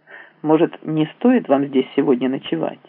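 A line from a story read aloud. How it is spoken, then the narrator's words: Plain. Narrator (Russian): спросил я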